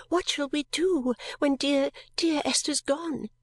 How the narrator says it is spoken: clung to me weeping and cried

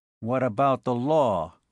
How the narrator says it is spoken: growled Sabo

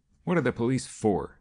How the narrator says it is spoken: he asked impatiently

